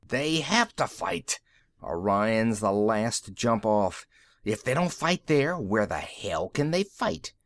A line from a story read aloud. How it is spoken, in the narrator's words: Rossi swore savagely